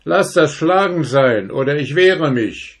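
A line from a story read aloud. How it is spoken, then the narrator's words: Soldier calling out. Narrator (German): rief der Soldat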